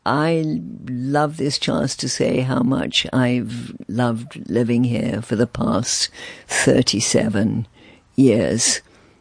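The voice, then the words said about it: Refined British-sounding accent. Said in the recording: “royal accent”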